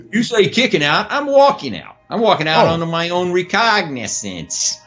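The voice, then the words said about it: Put-on New York Italian accent. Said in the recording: “I hung with you on the New York accent ... I got a good, New York accent, kind of Italian thing going”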